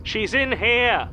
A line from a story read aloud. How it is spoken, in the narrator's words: Callum Brody shouts, loud enough for the whole street to hear